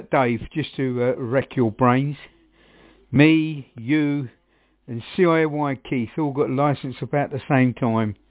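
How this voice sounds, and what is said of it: Suffolk English accent. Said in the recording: “that's a man from Suffolk. That's definitely a man with the accent”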